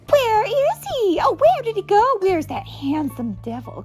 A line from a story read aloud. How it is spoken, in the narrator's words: cried the ladies from the village